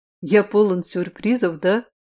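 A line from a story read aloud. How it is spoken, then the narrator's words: Smirking chuckle. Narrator (Russian): хмыкнул Син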